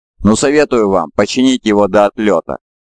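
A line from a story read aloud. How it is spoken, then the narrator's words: Laughing. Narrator (Russian): засмеялся Ху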